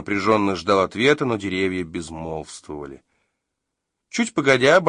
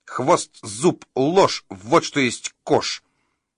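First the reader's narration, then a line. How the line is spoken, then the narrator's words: Angry but slower. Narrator (Russian): Рик-чик-чик говорил еще сердито, но уже медленнее, и его легче было понять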